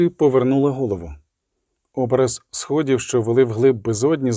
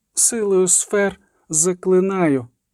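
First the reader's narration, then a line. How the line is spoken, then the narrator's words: Weak moan, sorceress. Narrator (Ukrainian): простогнала чародійка, мобілізуючи рештки сил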